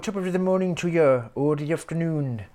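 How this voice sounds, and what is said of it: Bad put-on Irish accent. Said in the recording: “that was a bad Irish accent.”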